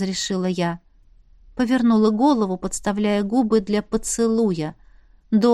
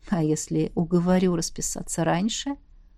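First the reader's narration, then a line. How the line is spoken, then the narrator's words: Purring. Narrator (Russian): мурлыкнул Костя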